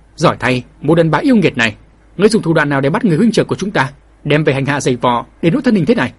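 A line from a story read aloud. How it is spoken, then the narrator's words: Loud shout. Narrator (Vietnamese): đồng ngục cư sĩ cũng hét lớn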